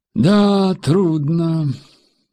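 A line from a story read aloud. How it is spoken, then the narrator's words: Sighing. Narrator (Russian): вздохнул пассажир Ауди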